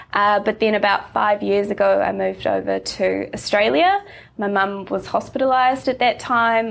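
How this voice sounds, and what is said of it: New Zealand accent. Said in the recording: “I grew up in New Zealand, which might already be obvious from my accent.”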